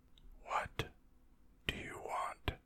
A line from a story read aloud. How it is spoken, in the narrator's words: She laughed